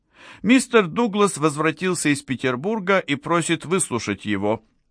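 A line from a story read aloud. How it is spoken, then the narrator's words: Thin high voice. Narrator (Russian): сказал тайный кабинетный советник своим тоненьким голосом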